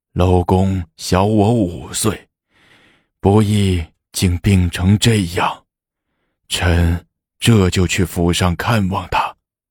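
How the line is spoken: Sighing. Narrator (Chinese): 任杰叹道

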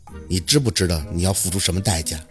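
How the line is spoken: Amused. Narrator (Chinese): 他是眼里含着笑意说的

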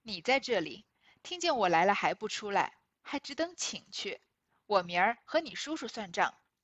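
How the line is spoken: Laughing. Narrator (Chinese): 南安太妃因笑道

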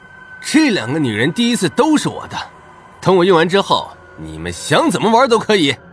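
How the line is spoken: Excited roar. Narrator (Chinese): 杰克兴奋的大吼道

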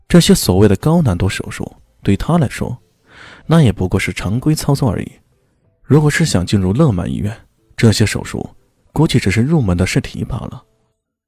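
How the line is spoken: Calm, detached. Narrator (Chinese): 李炫淡淡的说道

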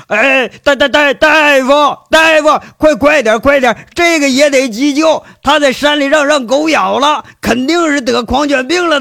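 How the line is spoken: Frantic panicked shout. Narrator (Chinese): 秦三河……马上就跟马蜂蛰了似的，在那喊

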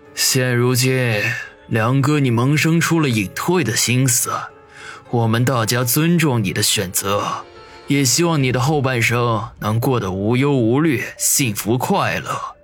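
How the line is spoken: Sighing, thoughtful. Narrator (Chinese): 云师爷叹了口气，沉吟了片刻，说道

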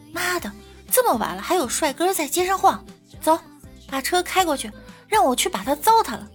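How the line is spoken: Sudden shout. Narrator (Chinese): 姐姐突然喊道

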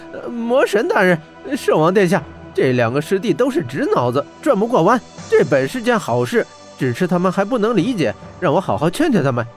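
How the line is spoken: Hurried, coaxing. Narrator (Chinese): 黄立豹急忙劝解道

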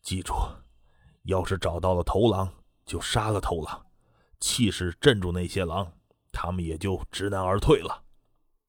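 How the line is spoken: Lowered voice. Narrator (Chinese): 滕永雷也是压低了声音

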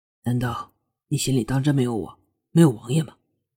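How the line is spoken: Low voice. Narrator (Chinese): 楚墨…低声道

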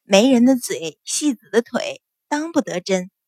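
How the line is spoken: Smiling. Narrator (Chinese): 阮云欢微笑道

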